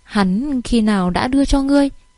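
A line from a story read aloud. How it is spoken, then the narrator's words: Soft, gentle. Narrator (Vietnamese): La Mạnh Nguyệt nhẹ nhàng mở miệng nói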